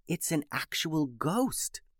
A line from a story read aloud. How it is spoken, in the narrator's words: whispered Alice